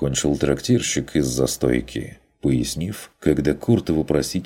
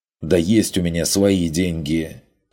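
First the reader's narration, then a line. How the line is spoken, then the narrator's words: Snapped back. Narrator (Russian): огрызнулся Карл Штефан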